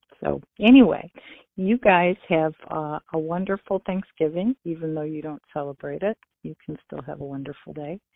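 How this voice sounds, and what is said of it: Michigan accent. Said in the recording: “we love your Michigan accent”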